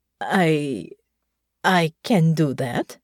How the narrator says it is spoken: she stammered

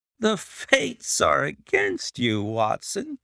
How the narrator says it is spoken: said he, laughing

